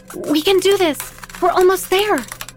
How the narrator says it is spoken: said excitedly

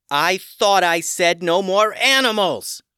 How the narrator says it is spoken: Tatiana yelled

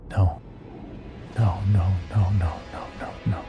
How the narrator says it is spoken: whispering

